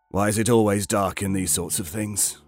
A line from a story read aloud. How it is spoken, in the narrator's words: Bartlett chuckled, not quite suspicious, not quite skeptical, not quite nervous, somewhere in between